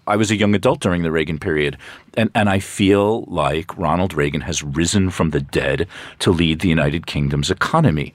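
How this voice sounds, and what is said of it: American accent. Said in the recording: “I am American. You know, the the accent won't go away.”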